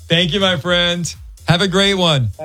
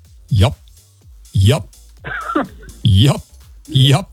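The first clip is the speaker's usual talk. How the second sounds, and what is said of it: Imitates another person's voice. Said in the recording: “Here's my impression of Rick Dees ... My one word impression ... That is dead on ... Perfect.”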